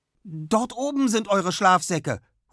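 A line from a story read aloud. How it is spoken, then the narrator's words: Sudden call. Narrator (German): ruft Anna plötzlich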